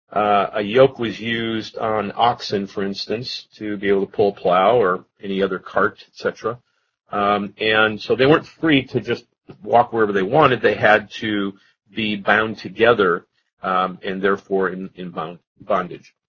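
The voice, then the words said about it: Hoarse, strained voice. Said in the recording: “I'm losing my voice a little bit here”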